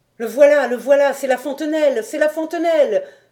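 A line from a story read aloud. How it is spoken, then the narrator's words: Frenzied exclaiming. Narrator (French): s'écriait-il avec frénésie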